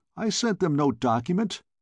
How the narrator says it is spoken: I cried

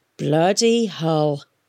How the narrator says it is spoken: he growled

